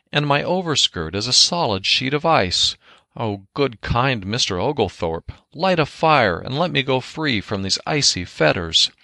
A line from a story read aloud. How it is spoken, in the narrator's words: cried the ghost in despair